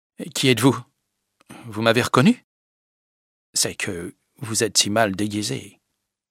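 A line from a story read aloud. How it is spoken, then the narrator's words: Foreign accent. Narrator (French): dit-il avec un accent étranger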